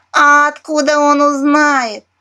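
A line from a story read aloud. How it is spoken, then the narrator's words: Loud laughter, parrot. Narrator (Russian): расхохоталась попугаиха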